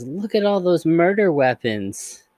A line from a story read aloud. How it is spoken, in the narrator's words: cheerfully says